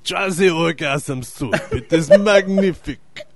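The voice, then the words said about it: Put-on French accent. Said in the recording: “He's French. ... What kind of accent's that? ... I think I'm French.”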